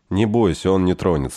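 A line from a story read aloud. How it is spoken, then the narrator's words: Plain. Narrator (Russian): сказал я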